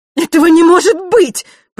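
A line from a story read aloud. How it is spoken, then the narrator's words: Shrill cry. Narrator (Russian): пронзительно вскрикнула Елена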